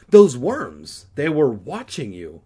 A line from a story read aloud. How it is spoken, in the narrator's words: Regina exclaimed